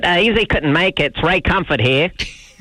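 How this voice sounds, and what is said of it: Imitates another person's accent. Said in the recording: “How'd you like that accent”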